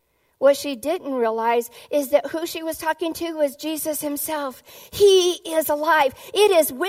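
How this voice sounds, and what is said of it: Usual voice. Nothing is said of it.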